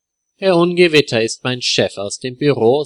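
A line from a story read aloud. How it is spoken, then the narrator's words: Plain. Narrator (German): sagt Leo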